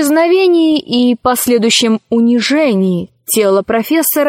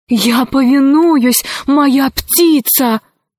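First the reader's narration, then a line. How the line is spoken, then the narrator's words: Exclaiming. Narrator (Russian): воскликнул Арсекки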